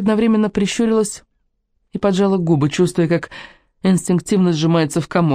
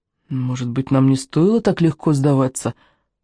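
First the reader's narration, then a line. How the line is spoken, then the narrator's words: Mumbling. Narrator (Russian): промямлила Амитабх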